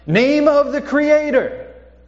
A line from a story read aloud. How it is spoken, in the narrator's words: the rabbi would start yelling